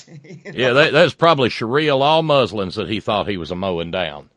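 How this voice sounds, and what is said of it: Put-on regional accent. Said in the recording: “wrong accent for up there”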